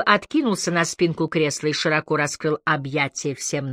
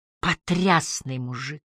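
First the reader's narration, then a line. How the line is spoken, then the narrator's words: Breathless exhale. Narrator (Russian): выдохнула Энджи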